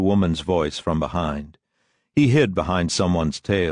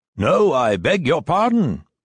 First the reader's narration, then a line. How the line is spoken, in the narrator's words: thundered out above his head